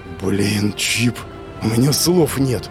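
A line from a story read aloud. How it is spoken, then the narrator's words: Breathless exhale. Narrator (Russian): выдохнул я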